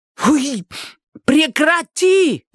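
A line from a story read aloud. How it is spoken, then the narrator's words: Yelling. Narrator (Russian): заорала она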